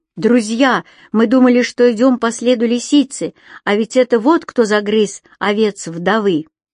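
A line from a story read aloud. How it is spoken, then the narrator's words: Shouted. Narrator (Russian): крикнув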